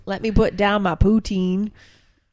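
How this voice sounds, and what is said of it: Poor put-on Canadian accent. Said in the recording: “That was the worst Canadian accent.”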